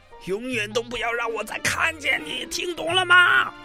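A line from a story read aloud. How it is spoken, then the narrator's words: Roaring, furious. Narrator (Chinese): 管理员又开始咆哮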